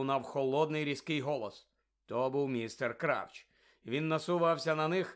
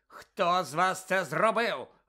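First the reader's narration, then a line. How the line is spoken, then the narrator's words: Barked. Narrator (Ukrainian): гаркнув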